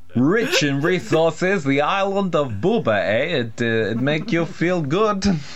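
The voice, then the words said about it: Put-on mixed foreign accent. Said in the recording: “the accent, it went around that. It's like, got so many different nationalities in there.”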